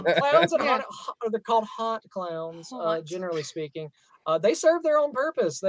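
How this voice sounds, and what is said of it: Southern accent. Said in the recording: “It's my southern accent that's destroying this.”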